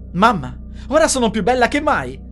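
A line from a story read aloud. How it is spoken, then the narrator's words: Exclaimed. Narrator (Italian): esclamò Nina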